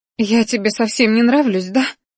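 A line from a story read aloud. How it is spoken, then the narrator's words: Sobbing. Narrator (Russian): всхлипнула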